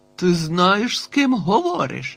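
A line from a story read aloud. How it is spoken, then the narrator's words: Barked. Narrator (Ukrainian): гаркнув Б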